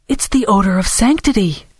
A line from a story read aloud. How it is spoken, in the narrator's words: Dora exclaimed, pretending to have only just noticed it herself